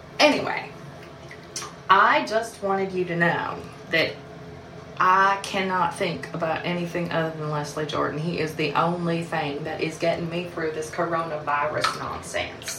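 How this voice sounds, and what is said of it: Poorly sustained fake southern accent. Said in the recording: “I'm sorry if this southern accent isn't maintaining well. I'm trying. I know it's terrible”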